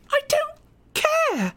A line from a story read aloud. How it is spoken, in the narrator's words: She screamed